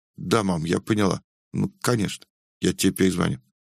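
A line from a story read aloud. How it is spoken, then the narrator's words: Very quiet whisper. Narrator (Russian): Наконец она очень тихо прошептала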